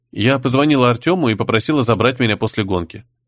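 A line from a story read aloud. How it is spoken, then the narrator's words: Plain. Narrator (Russian): ответила девушка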